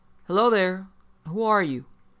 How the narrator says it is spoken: Hall, more perhaps to relieve his feelings than anything else, called out

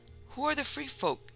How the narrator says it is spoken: he blurted out incautiously

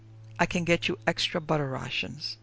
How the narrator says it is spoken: Krantz murmured

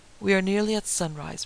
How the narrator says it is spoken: Van Helsing sighed

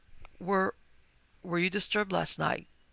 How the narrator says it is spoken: She asked hesitantly

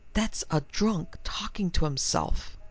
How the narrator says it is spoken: Monsieur Abime breathed into Delacroix's ears

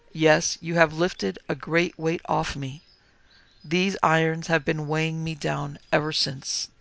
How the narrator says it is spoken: the ghost, heaving a deep sigh, said

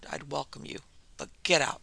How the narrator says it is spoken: muttered

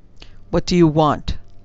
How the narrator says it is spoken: demanded Pelot curtly

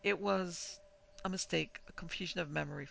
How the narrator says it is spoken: Faxon heard himself stammer

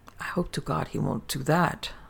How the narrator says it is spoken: muttered Augustin uneasily

